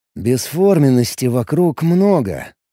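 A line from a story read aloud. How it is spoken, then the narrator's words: Thoughtful drawl. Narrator (Russian): задумчиво протянул Алекс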